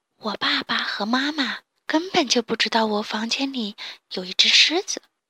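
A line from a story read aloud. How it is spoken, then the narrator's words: Whispering. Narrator (Chinese): 多多悄声地说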